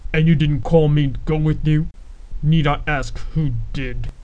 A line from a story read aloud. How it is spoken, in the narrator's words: he added with a snarl